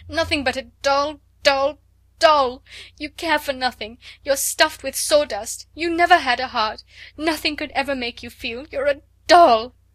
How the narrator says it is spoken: she cried

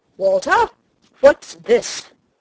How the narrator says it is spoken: he said sternly

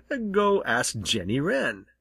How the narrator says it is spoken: chuckled Winsome Bluebird

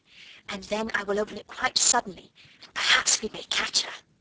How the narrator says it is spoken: she whispered

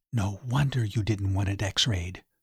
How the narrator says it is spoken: she whispered

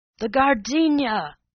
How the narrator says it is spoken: the millionaire had bawled

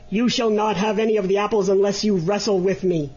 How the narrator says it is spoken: exclaimed the griffin angrily

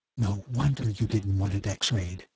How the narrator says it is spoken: she whispered

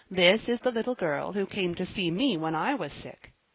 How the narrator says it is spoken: he said kindly

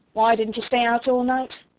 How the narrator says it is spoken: she snapped

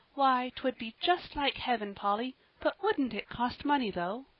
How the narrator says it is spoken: said little Davy, drawing a long sigh

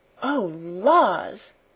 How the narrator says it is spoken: she gasped

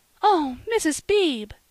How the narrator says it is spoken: cried Polly

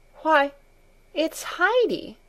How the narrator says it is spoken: she exclaimed

